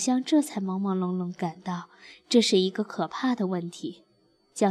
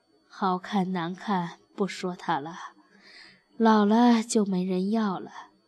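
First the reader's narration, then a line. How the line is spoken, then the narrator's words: Sighing mother. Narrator (Chinese): 妈叹了口气说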